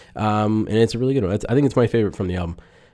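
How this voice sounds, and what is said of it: Talking very fast. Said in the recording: “why I'm talking really fast.”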